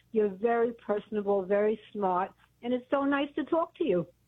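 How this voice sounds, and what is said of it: Brooklyn accent. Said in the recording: “I remember your voice. It sounds like you're from Brooklyn.”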